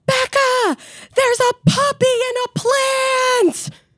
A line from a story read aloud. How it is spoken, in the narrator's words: I hear my mom shout from downstairs